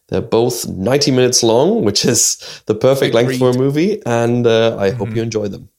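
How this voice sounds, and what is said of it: Very strong Irish accent. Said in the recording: “a very strong Irish accent”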